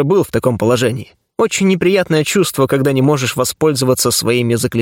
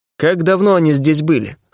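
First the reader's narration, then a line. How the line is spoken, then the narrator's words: Plain question. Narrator (Russian): спросил я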